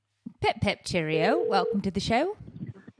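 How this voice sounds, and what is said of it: Put-on British accent. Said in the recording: “the one that did the British accent to do the opening. So you have to do a British accent”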